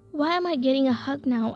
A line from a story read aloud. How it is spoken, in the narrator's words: I asked